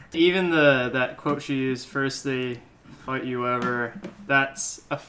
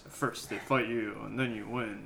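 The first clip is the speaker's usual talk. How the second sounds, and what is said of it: Mock deep, put-on voice. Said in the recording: “I'm going to use my deep voice.”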